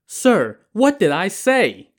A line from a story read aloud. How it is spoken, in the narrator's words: the waiter protested indignantly